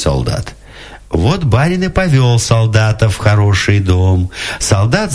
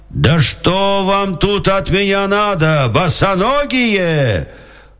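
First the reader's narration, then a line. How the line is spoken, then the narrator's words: Exasperated shout. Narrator (Russian): Солдат слушал, слушал и закричал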